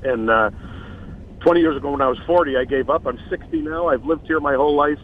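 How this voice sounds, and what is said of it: Chicago accent. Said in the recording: “that great Chicago accent ... I've tried to lose this accent for 60 years”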